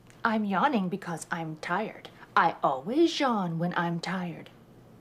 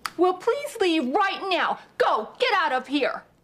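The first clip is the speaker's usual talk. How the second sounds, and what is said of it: Angry shouting. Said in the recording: “Why are you shouting? ... I'm shouting because I'm angry.”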